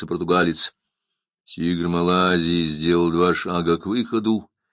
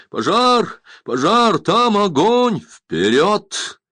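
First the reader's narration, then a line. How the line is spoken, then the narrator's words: Exclamation. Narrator (Russian): воскликнул Сандакан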